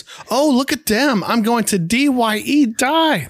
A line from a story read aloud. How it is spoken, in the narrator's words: Fritzy shrieks